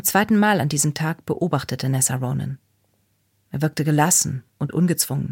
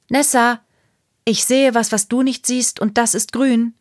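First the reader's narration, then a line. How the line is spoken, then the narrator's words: Called out. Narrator (German): rief Ruby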